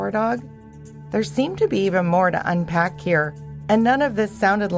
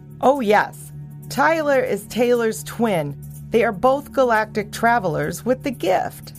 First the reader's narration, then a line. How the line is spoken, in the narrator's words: said Bernie